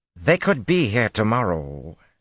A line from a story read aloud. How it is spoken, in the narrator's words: she snapped